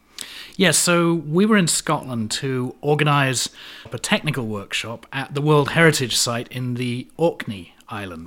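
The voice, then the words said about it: London accent mixed with American. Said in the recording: “I'm detecting a little note in your accent. It doesn't sound like a typical Connecticut accent ... I'm originally from London, but I've been in the States for 25 years, so whenever I go back to the UK, people think I have an American accent”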